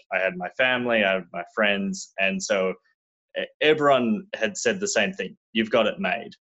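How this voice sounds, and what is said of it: Australian accent. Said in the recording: “I'm not originally from America. This is not a Californian accent. ... I was born and raised in Australia”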